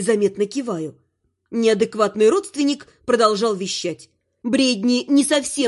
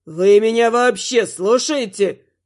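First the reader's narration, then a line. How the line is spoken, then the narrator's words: Offended man's roar. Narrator (Russian): Взревел обиженный деверь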